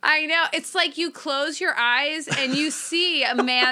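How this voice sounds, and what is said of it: Usual voice. Nothing is said of it.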